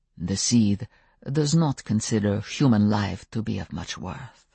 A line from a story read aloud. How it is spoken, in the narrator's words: Stefan said softly